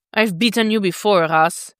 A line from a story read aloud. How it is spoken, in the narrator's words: Dick growls